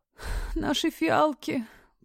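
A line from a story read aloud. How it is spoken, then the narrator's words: Moan. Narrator (Russian): простонала она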